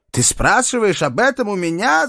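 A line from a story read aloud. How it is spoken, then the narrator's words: Father yelling. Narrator (Russian): заорал отец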